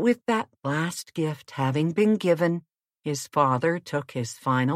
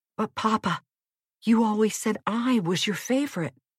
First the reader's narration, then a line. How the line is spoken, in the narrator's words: whispered Mario